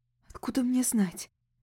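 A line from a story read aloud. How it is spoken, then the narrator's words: Whispered. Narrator (Russian): прошептала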